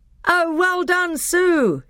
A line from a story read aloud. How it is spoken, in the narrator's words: shouted the other children